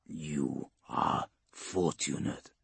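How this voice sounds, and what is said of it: Slurred, heavy, distorted monster voice. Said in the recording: “in slurring Gothic ... The accent is heavy, alien, palpably ancient, distorted by a vox mask and the tubes”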